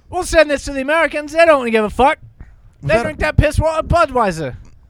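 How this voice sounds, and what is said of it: Put-on British or Australian accent. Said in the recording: “Was that Australian or... English... I'm bad at accents.”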